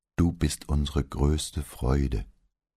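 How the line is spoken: Slightly unsure male voice. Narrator (German): antwortete er mit etwas unsicherer Stimme

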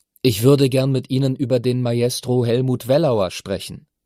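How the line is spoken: Loud and clear. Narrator (German): sagte er laut und deutlich

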